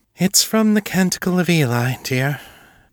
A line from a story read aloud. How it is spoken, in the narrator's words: Julia sighed